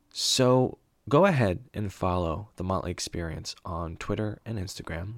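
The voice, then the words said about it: Imitates an NPR radio announcer style. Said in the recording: “my best NPR impression”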